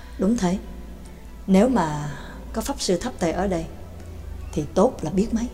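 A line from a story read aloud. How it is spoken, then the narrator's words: Sighing. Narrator (Vietnamese): Cũng không nén được tiếng thở dài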